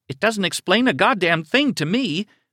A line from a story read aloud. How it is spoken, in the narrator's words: Liz cried so shrilly